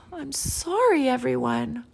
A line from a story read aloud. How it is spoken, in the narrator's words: Amu sighed